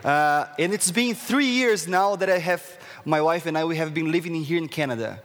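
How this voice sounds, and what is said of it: Brazilian accent. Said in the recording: “as you can see, like, from my accents, where is this guy from? I'm from Brazil”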